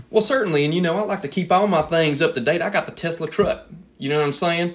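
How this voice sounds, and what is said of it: Put-on gator farmer accent. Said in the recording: “the accent, from your occupation as a gator farmer”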